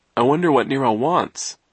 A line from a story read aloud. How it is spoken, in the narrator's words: Klaus said, yawning